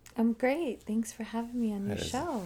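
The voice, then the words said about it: Fake overly polite voice. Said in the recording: “That's a fake voice if I've ever heard one. I haven't heard that politeness ever.”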